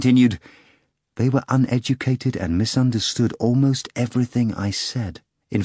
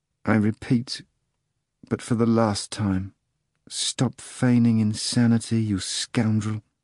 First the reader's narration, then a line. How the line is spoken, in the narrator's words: Pilate said softly and monotonously